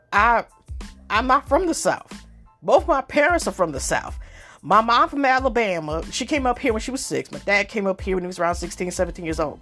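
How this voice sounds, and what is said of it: Southern US-sounding accent. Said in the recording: “some people say, I sound like I come from the South”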